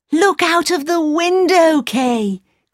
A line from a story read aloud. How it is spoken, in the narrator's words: cried Gerda